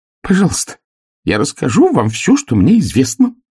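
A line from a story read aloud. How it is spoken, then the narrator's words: Squeaking. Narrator (Russian): пискнул Харек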